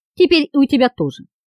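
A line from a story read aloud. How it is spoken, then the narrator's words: Calm. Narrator (Russian): все так же спокойно ответил Тиль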